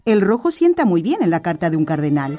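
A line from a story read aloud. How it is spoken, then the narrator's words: Laughing postmaster. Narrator (Spanish): dijo riendo el administrador de correos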